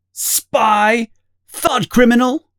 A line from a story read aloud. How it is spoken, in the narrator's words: they are both shouting